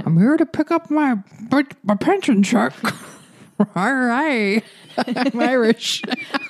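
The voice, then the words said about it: Put-on Irish accent. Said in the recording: “That was a nice Irish accent”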